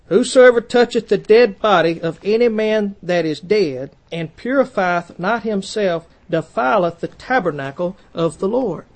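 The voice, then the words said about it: Southern American accent, drawn-out vowels. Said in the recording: “my southern accent, I pronounce dead and put a couple of syllables in it”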